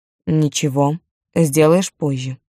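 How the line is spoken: Suddenly stern. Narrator (Russian): неожиданно строго сказал

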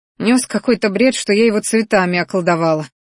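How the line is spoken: Angry snort. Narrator (Russian): злобно фыркнула она

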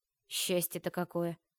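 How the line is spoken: Grumbling. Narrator (Russian): проворчала Нария

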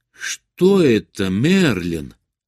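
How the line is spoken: Exclamation. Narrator (Russian): воскликнула она

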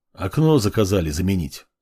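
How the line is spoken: Dry. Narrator (Russian): сухо произнес он

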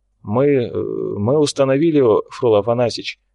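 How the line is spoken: Somewhat uncertain. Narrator (Russian): произнес он несколько неуверенно

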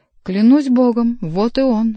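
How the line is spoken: Exclaiming. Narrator (Russian): воскликнул Генрих

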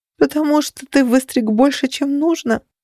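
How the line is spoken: Horrified groan. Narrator (Russian): простонала я, ужасаясь

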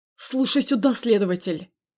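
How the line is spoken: Angry growl. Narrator (Russian): Прорычал зло

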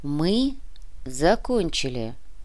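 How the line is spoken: Soft repetition. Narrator (Russian): мягко повторил Кортес

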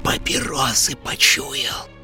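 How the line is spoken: Barely audible hiss. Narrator (Russian): прошипела на грани слышимости Зинаида Петровна

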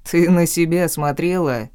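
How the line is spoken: Mocking chuckle. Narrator (Russian): обидно хохотнул

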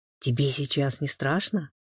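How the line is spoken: Quiet question. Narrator (Russian): тихо спросил Александр

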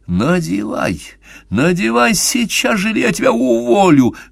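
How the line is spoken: Loud angry hiss. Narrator (Russian): громко зашипел босс

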